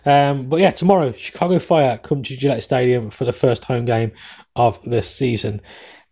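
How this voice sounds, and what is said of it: English accent, speaks fast. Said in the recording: “I know I talk fast. I know sometimes it's hard to understand my English accent ... And then I talk fast”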